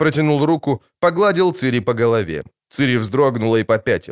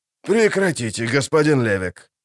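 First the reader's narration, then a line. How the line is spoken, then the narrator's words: Gruff mutter. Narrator (Russian): буркнул Юнгханс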